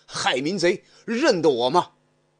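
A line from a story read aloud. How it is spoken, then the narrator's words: Furious roar. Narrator (Chinese): 张飞 大怒 大喝一声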